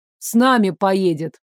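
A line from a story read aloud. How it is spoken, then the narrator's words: Deep bass nearby. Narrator (Russian): Пробасил рядом Лейв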